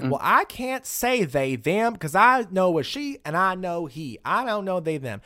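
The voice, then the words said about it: Put-on Southern US accent. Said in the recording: “using like a typical Southern accent”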